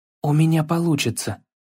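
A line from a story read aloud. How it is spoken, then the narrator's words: Whispering to himself. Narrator (Russian): прошептал Атрей больше себе, чем отцу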